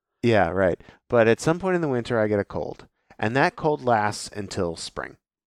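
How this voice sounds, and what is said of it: Nasal, slightly congested voice. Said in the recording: “you sound a bit nasally still”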